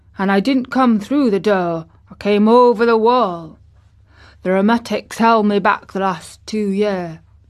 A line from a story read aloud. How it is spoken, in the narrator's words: said old Ben dryly